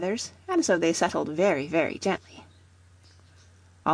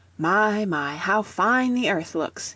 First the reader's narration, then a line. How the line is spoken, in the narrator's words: exclaimed